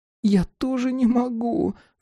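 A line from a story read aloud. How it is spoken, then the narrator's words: Sobbing agreement. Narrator (Russian): всхлипнув, согласилась та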